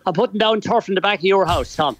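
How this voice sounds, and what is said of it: Irish accent. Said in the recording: “I know that Irish accent very well.”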